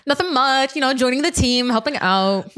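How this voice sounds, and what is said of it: Polished customer service voice. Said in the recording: “That was such my customer service voice.”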